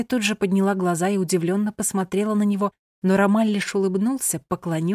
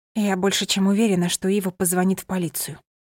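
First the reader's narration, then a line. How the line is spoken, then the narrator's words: Whisper. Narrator (Russian): прошептала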